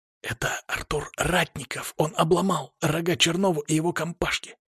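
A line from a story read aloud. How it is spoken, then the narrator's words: Whispering crowd of students. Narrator (Russian): пронесся шепоток по нестроенным рядам студентов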